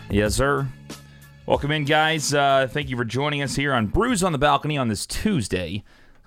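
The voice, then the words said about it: Hoarse, partly lost voice. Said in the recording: “I kind of lost my voice. I was screaming this weekend ... when you get kind of drunk, you start yelling and just kind of lose voice.”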